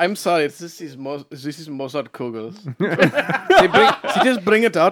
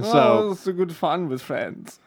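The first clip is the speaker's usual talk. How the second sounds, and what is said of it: Bad put-on German-sounding accent. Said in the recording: “your terrible German-esque accent”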